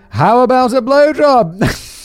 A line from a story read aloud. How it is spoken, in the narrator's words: In order to break the tension and pass over this awkward moment with a light-hearted joke, I said rather loudly